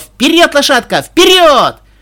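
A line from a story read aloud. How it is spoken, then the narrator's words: Loud shout. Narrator (Russian): громко закричала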